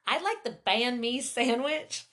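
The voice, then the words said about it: Put-on Tennessee Southern accent. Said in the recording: “That accent sticks to you”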